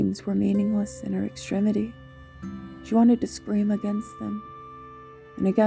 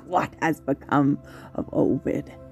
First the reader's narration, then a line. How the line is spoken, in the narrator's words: An insane cackle within her head asked